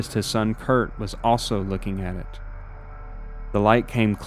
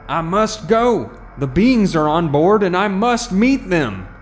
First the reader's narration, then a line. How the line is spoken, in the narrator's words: shouts